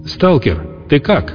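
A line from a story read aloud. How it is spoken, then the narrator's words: Shouting from afar. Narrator (Russian): прокричал с берега Камача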